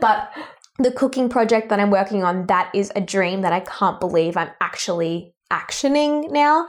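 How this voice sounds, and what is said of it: Australian accent. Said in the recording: “with an Australian accent, unfortunately”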